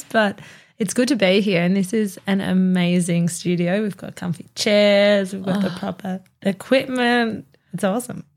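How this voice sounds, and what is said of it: Crackly, fading voice. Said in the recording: “I'm losing my voice. It could be a bit crackly over these few episodes”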